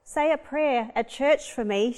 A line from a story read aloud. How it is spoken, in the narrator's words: she yelled